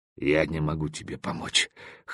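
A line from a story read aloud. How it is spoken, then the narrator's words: Hoarse, then coughing. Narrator (Russian): хрипло сказал он и закашлялся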